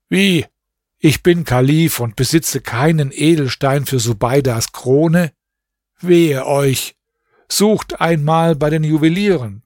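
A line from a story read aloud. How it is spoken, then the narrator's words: Dismayed exclamation. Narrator (German): rief er bestürzt aus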